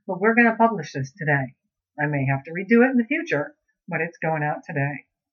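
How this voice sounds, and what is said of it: Slightly off voice from a cold. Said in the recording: “I have a little bit of a cold, and so my voice is a little bit off.”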